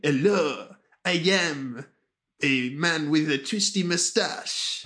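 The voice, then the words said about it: Funky French-Mexican put-on accent. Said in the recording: “me say that in a very funky accent, ... he's like Mexican or French or something ... French-Mexican.”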